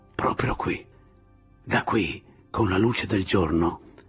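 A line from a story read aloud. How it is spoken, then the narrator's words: Crouched whisper. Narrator (Italian): bisbigliò, stando accovacciato dietro gli alberi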